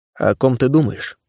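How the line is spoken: Plain. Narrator (Russian): спросил Илья

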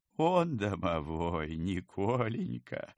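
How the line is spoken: Ghost, after laughing. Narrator (Russian): отсмеявшись, сообщил призрак

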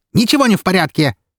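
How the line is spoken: Fierce barking shout. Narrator (Russian): рявкнула она так, что ее супруг чуть не съежился в кресле

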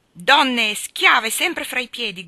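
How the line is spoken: Furious shout. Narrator (Italian): gridò furibondo

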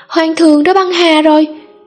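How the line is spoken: Piercing scream. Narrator (Vietnamese): một tiếng hét chói tai vang lên

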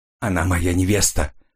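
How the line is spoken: Dry, curt. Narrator (Russian): сухо бросил Келвин

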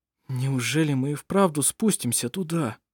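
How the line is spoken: Whisper. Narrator (Russian): прошептал Петер

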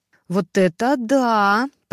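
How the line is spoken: Drawling. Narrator (Russian): протянула Таня

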